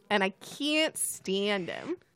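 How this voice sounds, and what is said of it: Lena Lamont impression. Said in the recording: “your best Lena Lamont impression”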